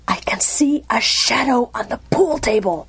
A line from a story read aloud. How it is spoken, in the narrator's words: said in a fierce whisper